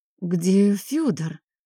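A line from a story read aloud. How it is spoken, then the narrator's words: Suddenly hoarse voice. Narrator (Russian): Елизавета не узнала своего вдруг охрипшего голоса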